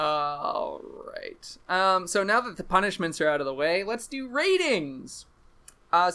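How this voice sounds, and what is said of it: Usual voice. Nothing is said of it.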